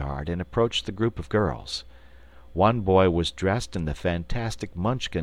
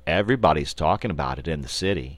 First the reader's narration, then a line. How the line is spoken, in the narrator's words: he replied